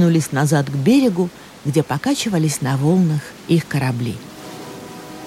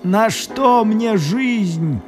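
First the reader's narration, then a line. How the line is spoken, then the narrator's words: Groaning. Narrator (Russian): простонал Матео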